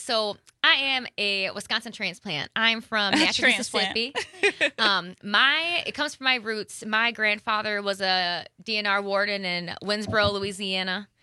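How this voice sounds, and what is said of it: Southern US accent. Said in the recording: “your southern accent”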